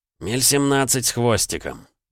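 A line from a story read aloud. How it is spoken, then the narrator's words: Grumbling. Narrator (Russian): проворчал он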